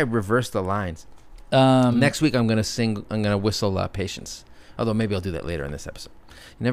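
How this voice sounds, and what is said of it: Usual voice. Nothing is said of it.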